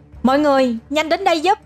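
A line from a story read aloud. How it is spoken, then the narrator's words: Shouting amid crowd. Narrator (Vietnamese): Trong tiếng la hét của mọi người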